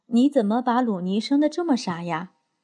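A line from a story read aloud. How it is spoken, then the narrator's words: Calm sighing. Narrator (Chinese): 受到责备的达马拉也不恼，叹息着对娜拉说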